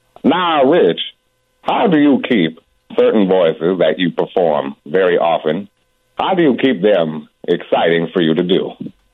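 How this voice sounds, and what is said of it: Deep Morgan Freeman impression. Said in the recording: “here's more Morgan Freeman ... That's pretty good. That's pretty good. Morgan Freeman, boy, you got to have a deep voice to do him”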